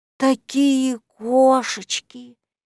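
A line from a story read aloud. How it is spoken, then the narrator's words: Dreamy drawl. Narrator (Russian): мечтательно протянул самый-присамый самец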